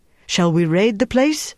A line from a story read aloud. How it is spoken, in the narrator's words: Hans said eagerly